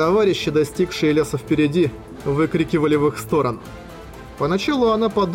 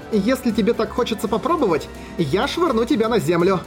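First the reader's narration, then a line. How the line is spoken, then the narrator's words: Shouted while running. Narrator (Russian): прокричала на бегу в ответ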